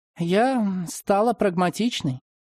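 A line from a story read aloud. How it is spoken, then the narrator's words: Sighing. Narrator (Russian): вздохнула Марина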